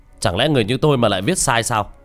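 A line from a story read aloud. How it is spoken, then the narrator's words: Sudden angry shout. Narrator (Vietnamese): Ông Lý bỗng thay đổi sắc mặt, quát lên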